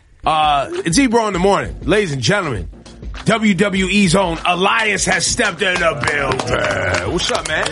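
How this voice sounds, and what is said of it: Over-the-top wrestling announcer voice. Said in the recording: “That was my wrestling voice ... It was terrible ... it's ridiculousness voice”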